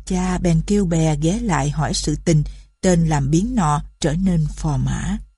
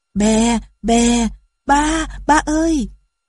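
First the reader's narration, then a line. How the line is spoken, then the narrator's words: Child crying out. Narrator (Vietnamese): Đứa con của công chúa kêu lên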